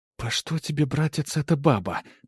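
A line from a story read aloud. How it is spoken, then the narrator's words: Quiet angry hiss. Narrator (Russian): зашипела она негромко, но зло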